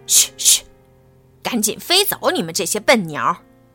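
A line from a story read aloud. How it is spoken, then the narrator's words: Shouting. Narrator (Chinese): 守卫 喊道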